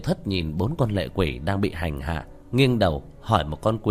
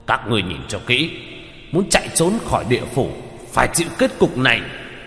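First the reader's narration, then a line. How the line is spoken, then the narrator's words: Armored man shouting. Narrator (Vietnamese): Một người mặc khôi giáp quát lên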